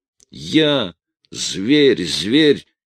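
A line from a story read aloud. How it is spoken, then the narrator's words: Growling. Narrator (Russian): рычал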